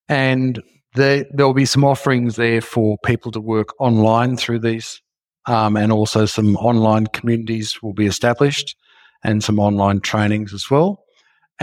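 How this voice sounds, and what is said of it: Australian accent. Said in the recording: “I'm down in Australia, as you can tell from my accent.”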